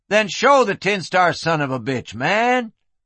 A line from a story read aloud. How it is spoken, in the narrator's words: Flynn said loudly